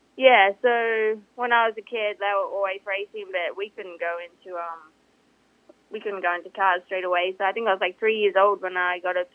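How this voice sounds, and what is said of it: Australian accent. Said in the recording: “you're from Australia. You have that amazing, awesome accent.”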